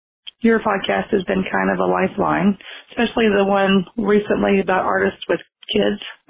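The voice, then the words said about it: Hoarse, strained voice. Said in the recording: “I'm kind of losing my voice”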